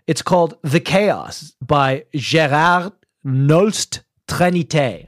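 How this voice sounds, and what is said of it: Mock French accent. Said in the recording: “I don't know why I said that in a French accent.”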